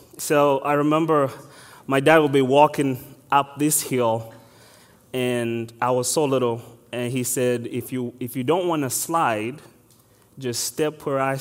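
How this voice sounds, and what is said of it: Ugandan English accent. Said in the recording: “I'm originally from Africa, so if you can't tell my accent, I am exactly from Uganda.”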